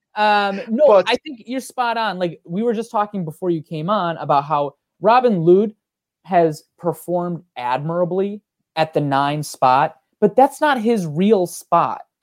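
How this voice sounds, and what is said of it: Strong Minnesotan accent. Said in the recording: “You got a very strong Minnesotan accent though too ... the Minnesota.”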